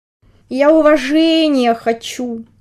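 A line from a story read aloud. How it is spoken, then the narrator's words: Drawling. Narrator (Russian): Протянул комарик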